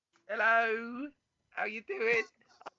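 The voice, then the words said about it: Funny put-on voice. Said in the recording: “I got a funny voice. ... Oh, that's a good voice.”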